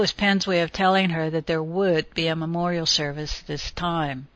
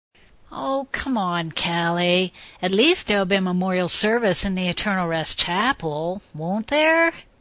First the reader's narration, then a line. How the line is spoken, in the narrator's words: he whined